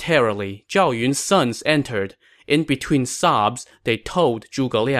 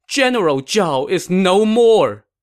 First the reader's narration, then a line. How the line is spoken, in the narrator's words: Stunned, Zhuge Liang threw down his cup and cried